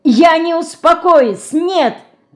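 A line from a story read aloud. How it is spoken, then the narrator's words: Shouting. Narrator (Russian): кричала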